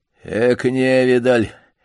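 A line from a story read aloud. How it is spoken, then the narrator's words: Hoarse voice from dark corner. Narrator (Russian): послышался хриплый голос из темного угла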